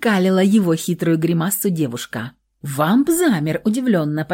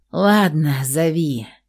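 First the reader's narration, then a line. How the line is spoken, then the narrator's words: Sighing. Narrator (Russian): Вздохнул он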